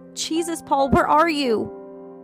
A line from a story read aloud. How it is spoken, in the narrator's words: shouted again, her voice cracking against the panic